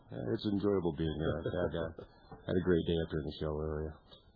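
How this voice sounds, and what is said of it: Deep voice. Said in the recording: “listen to that deep voice.”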